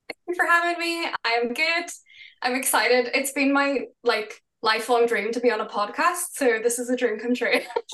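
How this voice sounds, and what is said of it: Beautiful accent. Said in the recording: “You have such a beautiful accent. I could just hear you talk all day.”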